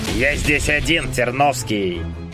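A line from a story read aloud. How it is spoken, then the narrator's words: Growled. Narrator (Russian): прорычал скандинав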